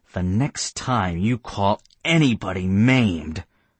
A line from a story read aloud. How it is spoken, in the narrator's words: I bit off the words harshly so he would understand all of them